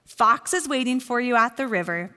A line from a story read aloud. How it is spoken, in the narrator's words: Bear said